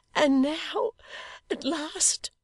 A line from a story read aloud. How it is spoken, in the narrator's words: cried Dolly, trembling with the fervour of her speech